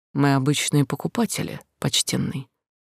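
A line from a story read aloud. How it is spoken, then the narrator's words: Quiet answer. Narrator (Russian): тихим голосом ответила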